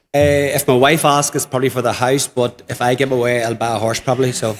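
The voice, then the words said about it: Irish accent. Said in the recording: “You can hear the Irish accent.”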